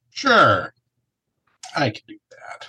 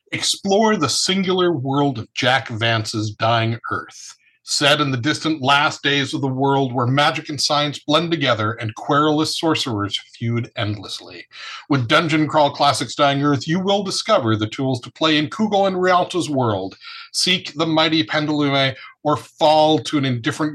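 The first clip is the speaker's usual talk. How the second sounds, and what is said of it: Announcer voice. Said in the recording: “announcer voice”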